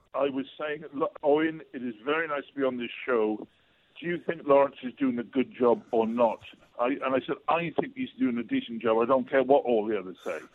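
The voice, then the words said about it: Welsh accent. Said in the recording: “But in a Welsh accent, that just sounded beautiful.”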